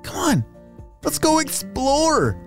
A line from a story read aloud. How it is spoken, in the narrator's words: Aiden exclaimed